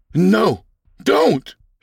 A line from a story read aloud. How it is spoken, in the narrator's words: shouted Fred